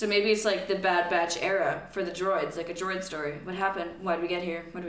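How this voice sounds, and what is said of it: Usual voice. Nothing is said of it.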